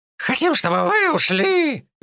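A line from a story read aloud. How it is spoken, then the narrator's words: Squealing otters. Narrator (Russian): Визжали выдры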